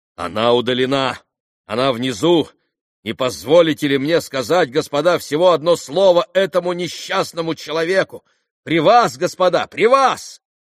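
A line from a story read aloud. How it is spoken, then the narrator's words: Loud, excited. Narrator (Russian): Михаил Макарыч и громко в возбуждении проговорил прокурору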